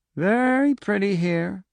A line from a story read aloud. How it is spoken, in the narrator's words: Pinchot said dreamily